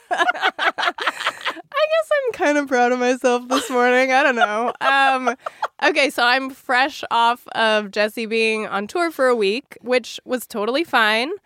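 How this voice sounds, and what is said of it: Slightly congested voice from a cold. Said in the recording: “I have a little bit of a cold. ... I hope by the end of this recording, I still have a voice.”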